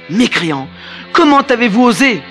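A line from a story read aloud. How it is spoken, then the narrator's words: King crying out in despair. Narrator (French): s'écria le roi désespéré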